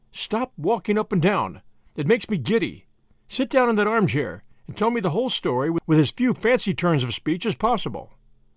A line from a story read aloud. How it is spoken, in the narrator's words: said Tuppence firmly